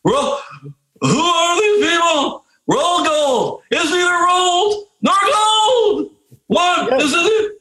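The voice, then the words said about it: Jerry Seinfeld impression. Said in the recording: “a Seinfeld impersonation ... That was pretty good.”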